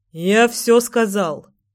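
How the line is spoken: Rough, curt rebuke. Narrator (Russian): Грубо осадил девчонку мужчина

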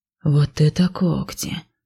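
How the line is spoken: Quiet undertone remark. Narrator (Russian): вполголоса заметил Ив

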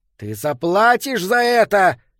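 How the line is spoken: Shouted out. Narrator (Russian): выкрикнул Питеркин

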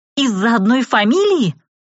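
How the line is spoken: Exclaiming, unable to hold back. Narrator (Russian): Не выдержав, воскликнула я

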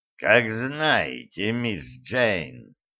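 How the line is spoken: Ominous. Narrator (Russian): Зловеще, а может, так только показалось, проговорил Карл

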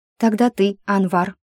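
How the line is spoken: Joyful. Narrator (Russian): Радостно бесячая мышь

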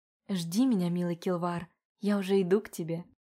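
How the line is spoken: Shy whisper. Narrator (Russian): прошептала она, краснея от собственной смелости

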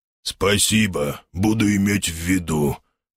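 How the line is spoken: Clear, almost no growl. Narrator (Russian): неожиданно отчетливо и практически без рычания и хрипов отозвался огр

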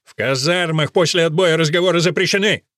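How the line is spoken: Colonel shouting. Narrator (Russian): выкрикнул полковник

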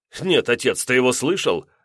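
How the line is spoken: Laughing. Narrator (Russian): рассмеялся Евгений

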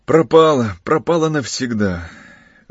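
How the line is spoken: Desperate exclamation. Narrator (Russian): в отчаянии воскликнул

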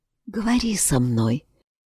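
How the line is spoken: Quiet. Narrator (Russian): тихо произнесла Анна

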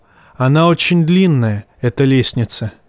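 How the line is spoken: Sighing. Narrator (Russian): вздохнул он

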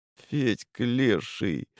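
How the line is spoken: Muttered. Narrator (Russian): пробормотал Дмитрий Иванович

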